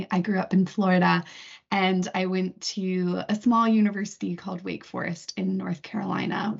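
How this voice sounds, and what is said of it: American accent. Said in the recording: “If my accent hasn't given me away already, I am actually from the US originally.”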